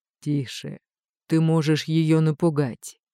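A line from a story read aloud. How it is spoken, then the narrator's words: Calm. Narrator (Russian): спокойно сказал он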